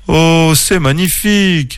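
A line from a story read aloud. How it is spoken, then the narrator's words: Amazed exclamation. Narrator (French): s'écria Clément, ses yeux brillants d'émerveillement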